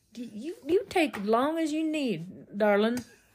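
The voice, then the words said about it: Imitates another person's voice, Southern-sounding. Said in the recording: “Is that his accent?... They talk like they're from the South.”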